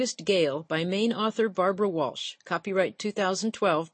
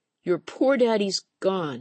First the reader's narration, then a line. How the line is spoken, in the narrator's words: sobbed